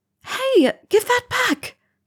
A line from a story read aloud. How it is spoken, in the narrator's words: Rowena cried